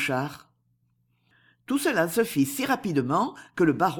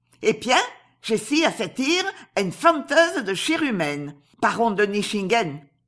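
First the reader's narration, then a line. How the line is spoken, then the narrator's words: Exclaimed. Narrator (French): s'écria la terrible Asie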